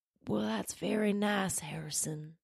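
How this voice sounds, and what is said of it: Poor imitation of another person's voice. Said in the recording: “Bill Clinton accent ... That's horrible.”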